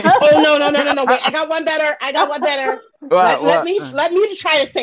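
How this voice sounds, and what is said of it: Usual voice. Nothing is said of it.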